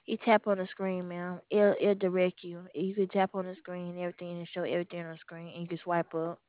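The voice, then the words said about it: Southern US accent. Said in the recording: “You have a real Southern accent.”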